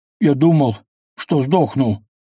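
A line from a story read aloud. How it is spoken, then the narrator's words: Groaning. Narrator (Russian): простонал он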